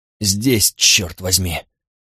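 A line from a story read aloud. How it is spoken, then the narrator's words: Muffled, strained. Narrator (Russian): Глухо выдавил из себя Карл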